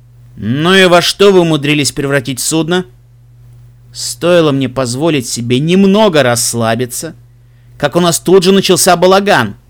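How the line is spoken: Menacing. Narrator (Russian): Грозно сказал Себрастиан

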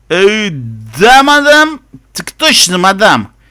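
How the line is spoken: Full-throated bark. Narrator (Russian): Маул фыркнул, гаркнул во всю глотку

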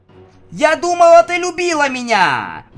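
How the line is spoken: Wailed. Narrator (Russian): взвыла она

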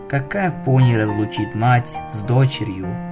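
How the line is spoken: Whispered to herself. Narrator (Russian): прошептала Селестия, обращаясь к себе

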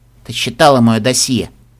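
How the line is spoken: Gruff mutter. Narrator (Russian): буркнула Даймонд

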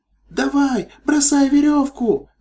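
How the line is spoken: Shrill shout. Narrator (Russian): пронзительно крикнула единорожка

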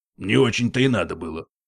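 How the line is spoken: Gruff mutter. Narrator (Russian): буркнул Пегас

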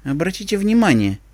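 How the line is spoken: Quiet. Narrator (Russian): тихо сказала Зикора

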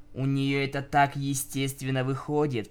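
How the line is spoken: Grumbling. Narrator (Russian): проворчала Винил

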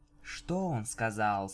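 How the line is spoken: Soft question. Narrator (Russian): спросила Винил мягко

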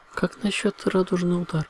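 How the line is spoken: Timid suggestion. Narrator (Russian): робко предложила Флаттершай

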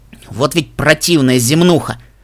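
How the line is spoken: Snort. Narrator (Russian): фыркнул Десерта

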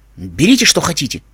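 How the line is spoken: Angry male voice. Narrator (Russian): зло сказал Уайт

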